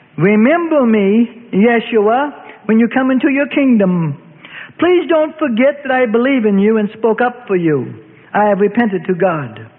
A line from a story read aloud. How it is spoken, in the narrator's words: heaving his chest, being in an agony, cried out